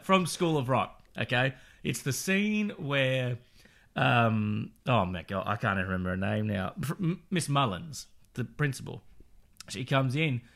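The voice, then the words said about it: Hoarse, strained, fading voice. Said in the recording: “I'm genuinely losing my voice halfway through the show ... I'm just going to talk louder”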